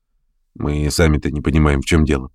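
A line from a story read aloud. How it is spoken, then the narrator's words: Grumbling. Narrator (Russian): проворчал чей-то голос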